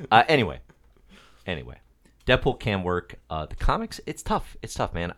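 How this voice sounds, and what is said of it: Chicago accent. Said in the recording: “make fun of my Chicago accent.”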